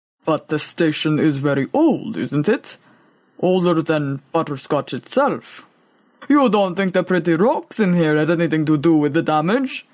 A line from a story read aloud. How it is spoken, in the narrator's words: Boaz tried a rumble of laughter